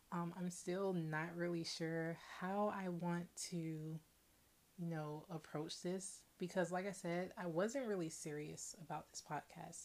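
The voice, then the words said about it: Quiet, low-volume speech. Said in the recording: “you might notice that I'm talking at a much lower volume than usual. That's because it's pretty late at night and I don't want to disturb my neighbors”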